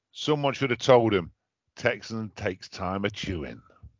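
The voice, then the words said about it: Put-on West Country accent. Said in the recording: “I don't know why I did that in a West Country accent.”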